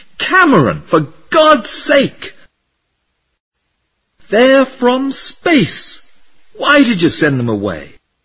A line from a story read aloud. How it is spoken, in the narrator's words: screamed